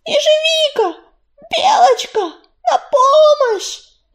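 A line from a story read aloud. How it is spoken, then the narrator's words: Frantic shriek. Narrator (Russian): Не помня себя, завизжала Листвичка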